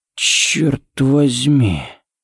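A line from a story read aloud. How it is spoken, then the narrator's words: Breathed near ear. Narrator (Russian): выдохнул Харри у него над ухом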